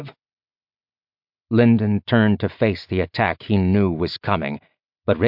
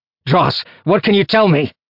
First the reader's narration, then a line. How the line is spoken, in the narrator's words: Lyndon shouted in his mind